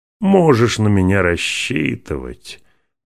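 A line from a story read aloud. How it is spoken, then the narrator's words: Over drunken laughter. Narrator (Russian): Под аккомпанемент дружного пьяного хохота остальных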